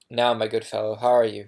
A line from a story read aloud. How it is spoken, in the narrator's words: he asked